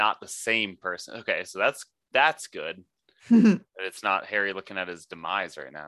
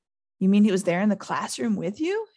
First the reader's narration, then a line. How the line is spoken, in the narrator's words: Harry gasped